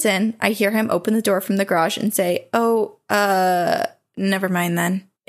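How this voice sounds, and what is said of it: Confused-sounding voice. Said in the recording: “in a really confused voice”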